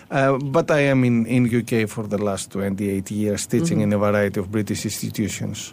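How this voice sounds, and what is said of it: Greek accent in English. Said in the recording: “I'm from Greece... The name, I guess, is giving me out, plus my accent.”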